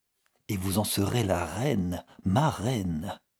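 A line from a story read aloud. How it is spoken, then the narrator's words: Low voice. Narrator (French): dit Conrad Winstanley à voix basse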